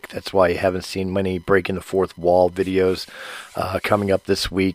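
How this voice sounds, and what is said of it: Sick, strained voice. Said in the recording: “As you can hear in my voice, I've been sick ... until I can get my voice back ... braving my voice a little bit”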